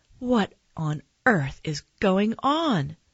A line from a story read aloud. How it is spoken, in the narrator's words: my mom cried